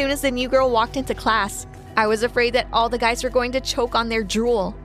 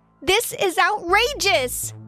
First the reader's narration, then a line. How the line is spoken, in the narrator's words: I yelled out